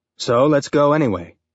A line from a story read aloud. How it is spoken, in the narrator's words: Miller said